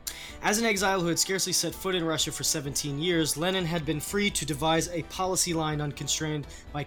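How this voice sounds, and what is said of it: Speaker's own noticeable accent. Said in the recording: “That probably, with my accent, sounds like comedy.”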